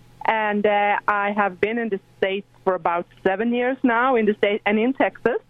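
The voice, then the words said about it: Slight Swedish accent. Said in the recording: “has a slight little accent to her vocabulary ... it's no way I can get away from that accent ... born and raised in Sweden”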